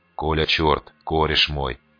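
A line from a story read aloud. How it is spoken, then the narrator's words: Hiss. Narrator (Russian): прошипел наш магиканин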